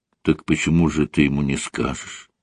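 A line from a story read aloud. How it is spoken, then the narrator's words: Calm. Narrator (Russian): спокойно произнесла Рит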